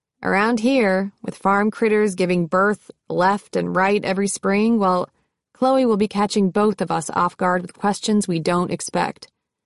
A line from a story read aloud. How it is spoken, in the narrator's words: With a chuckle, he said